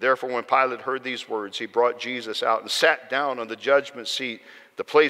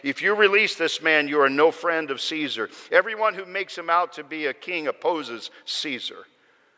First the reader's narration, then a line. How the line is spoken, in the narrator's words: the Jews cried out, saying